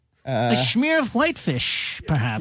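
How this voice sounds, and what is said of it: Put-on Jewish voice. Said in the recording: “do the Jewish voice”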